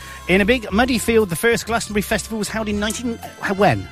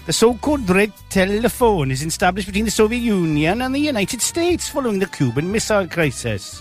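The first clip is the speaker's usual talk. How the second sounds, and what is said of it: Put-on Welsh accent. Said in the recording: “I don't know what accent that was. It wasn't Russian ... Welsh ... Big Cardiff ... It's doing in a Welsh accent ... You managed to stay in Wales.”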